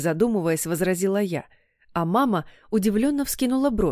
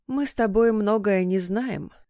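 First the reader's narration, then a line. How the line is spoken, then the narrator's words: Coaxing, insinuating reminder. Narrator (Russian): вкрадчиво напомнила мама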